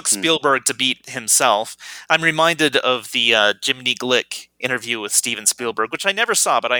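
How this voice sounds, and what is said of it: Usual voice. Nothing is said of it.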